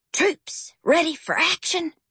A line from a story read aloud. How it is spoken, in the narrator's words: Howard whispered solemnly